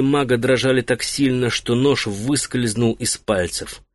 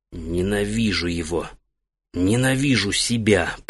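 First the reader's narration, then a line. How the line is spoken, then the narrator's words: Whisper. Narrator (Russian): прошептал он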